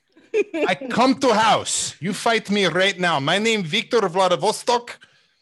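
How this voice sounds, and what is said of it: Put-on Russian accent. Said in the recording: “the Russia accent”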